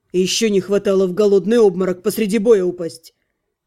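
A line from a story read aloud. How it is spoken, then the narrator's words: Snort. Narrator (Russian): Лана фыркнула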